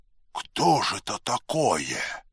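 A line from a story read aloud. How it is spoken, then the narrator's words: Quiet question. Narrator (Russian): тихо спросил Леонид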